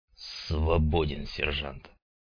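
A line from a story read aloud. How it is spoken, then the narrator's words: Gloomy curt remark. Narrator (Russian): Мрачно бросил Хворостин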